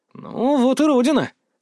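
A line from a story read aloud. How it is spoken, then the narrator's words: Wry snort. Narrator (Russian): хмыкнул я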